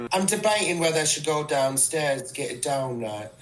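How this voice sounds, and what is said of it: Fake British accent. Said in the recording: “that's a fake British accent”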